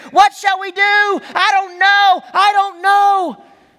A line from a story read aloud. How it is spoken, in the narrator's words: We cried out in fear